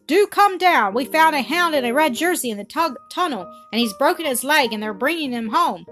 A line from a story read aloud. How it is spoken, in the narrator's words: she cried